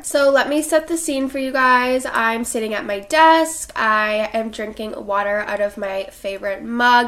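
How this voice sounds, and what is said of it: Sick, congested-sounding voice. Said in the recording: “I don't know if you can tell in my voice, but I am pretty sick ... if my voice sounds a little bit different”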